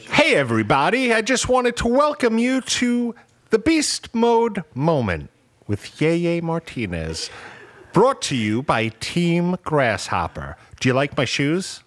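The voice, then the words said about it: Put-on rom-com character voice. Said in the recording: “I want a different voice, bro. Can you do a different voice? ... like a rom com. Do like a rom com. ... someone who wears open toe shoes”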